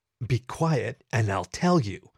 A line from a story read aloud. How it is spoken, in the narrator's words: I snarled at the impatient canine